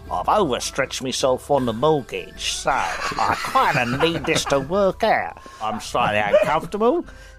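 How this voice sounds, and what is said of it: Put-on Cockney accent. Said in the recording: “I talk in a Cockney accent ... please get ... to do his Cockney accent more. It's amazing.”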